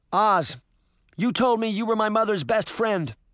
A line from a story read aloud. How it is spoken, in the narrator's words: she called out to the wizard